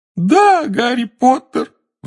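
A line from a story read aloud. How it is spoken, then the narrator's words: Howling. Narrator (Russian): взвыл Добби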